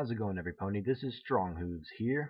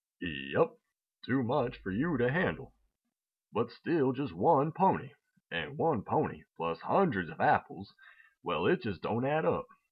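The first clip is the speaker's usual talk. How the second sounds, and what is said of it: Cartoon character voice. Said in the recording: “I'm going to be doing the voice of Big Macintosh”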